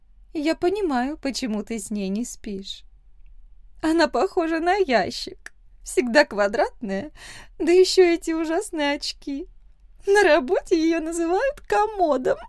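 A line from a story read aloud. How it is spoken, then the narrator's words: Woman laughing. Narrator (Russian): засмеялась женщина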